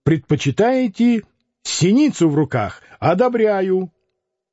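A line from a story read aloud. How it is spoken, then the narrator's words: Shout. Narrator (Russian): закричал Лютов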